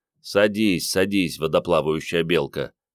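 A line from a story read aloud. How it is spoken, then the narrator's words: Grumbling mutter. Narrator (Russian): пробурчал Андрей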